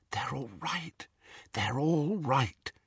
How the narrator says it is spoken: she whispered

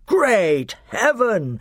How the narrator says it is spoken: exclaimed Miraz

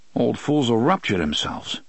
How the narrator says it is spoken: Eddie muttered

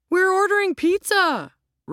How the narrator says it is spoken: Ro cried

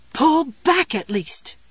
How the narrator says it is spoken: the mother voice screamed

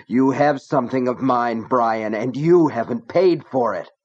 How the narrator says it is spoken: Gaunt bellowing

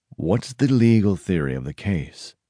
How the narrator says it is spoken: Al Petty, owner of the Hickman Press, gravely asked Bud

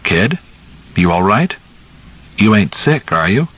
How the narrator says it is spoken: His voice was so kind

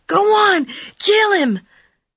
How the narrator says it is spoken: The kid shrieked a long, piercing fire whistle sound

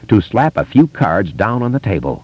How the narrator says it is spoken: Kasprak had said grimly

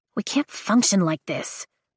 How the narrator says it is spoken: she says to the group quietly

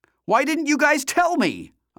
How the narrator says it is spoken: I shouted

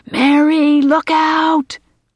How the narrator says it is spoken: yells

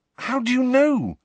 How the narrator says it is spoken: said Harry urgently

